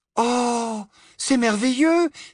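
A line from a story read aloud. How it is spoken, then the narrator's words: Exclaimed. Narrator (French): s'écria Hermione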